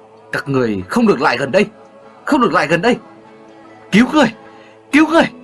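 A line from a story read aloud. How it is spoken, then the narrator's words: Old man shouting. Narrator (Vietnamese): Ông lớn tiếng hô lên rằng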